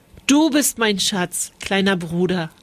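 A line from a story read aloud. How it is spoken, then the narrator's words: Plain. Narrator (German): antwortete er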